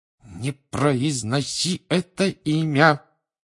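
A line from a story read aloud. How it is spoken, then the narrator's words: Hissed through gritted teeth. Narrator (Russian): прошипел Рон сквозь зубы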